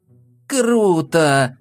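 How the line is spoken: Exclamation. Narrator (Russian): воскликнул товарищ

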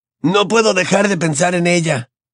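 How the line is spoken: Broken voice. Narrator (Spanish): admitió Ron con voz quebrada

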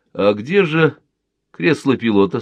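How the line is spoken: Plain. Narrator (Russian): спросил Виктор Горбатко

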